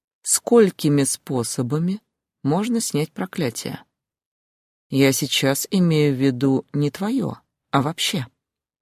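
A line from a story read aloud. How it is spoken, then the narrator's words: Sinister dragon smirk. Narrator (Russian): зловеще усмехнулся дракон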